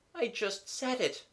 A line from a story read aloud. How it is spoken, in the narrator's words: moaned the voice